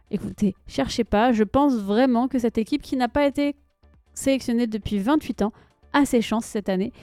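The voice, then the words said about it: French accent from France. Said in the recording (French): “vous l'entendez à mon accent, je suis française”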